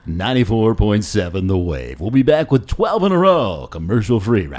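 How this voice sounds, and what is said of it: FM radio DJ voice. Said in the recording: “Can you do like a, what is it, 94.7 The Wave? ... Like a jazz. ... FM DJ guy? ... That was pretty good. Or like smoother, like deep”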